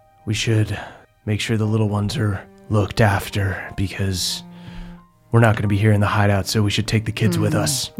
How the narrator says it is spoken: Cran gets a kind of a very serious look, and she sighs and she goes

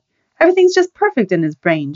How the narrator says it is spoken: Joni said sharply

